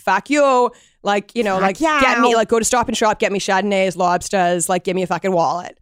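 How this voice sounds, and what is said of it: Put-on younger Boston accent. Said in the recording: “there's also two Boston accents ... the younger Bostonians who are like ... if somebody said that to me in that accent, I would laugh”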